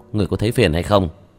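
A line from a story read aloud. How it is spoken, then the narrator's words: Cold, suppressed anger. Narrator (Vietnamese): Vương Quân Diệt hít sâu một hơi, đè nặng tức giận trong lòng, lạnh lùng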